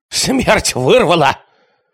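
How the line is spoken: Barking voice. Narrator (Russian): произнес он лающим голосом

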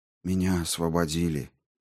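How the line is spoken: Quiet. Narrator (Russian): тихо сказал он Каттеру

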